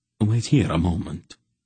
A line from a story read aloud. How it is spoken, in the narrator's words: he whispered